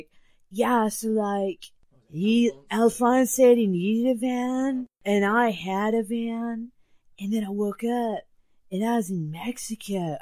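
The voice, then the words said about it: Overacted stoner voice, Bill and Ted. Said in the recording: “worst impression of someone being stoned I have ever seen ... he went full Bill and Ted ... so badly overacted”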